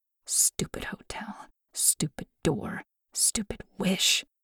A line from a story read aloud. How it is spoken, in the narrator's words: She muttered under her breath